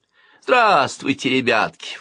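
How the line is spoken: False voice. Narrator (Russian): фальшивым голосом отзвалась

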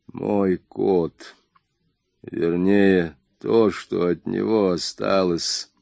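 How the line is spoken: Hollow, broken voice. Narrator (Russian): глухо надломленным голосом сказал Джордж

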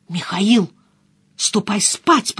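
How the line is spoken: Hissing. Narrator (Russian): прошипела я

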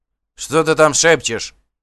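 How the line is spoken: Shouting from behind. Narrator (Russian): крикнул сзади колдун

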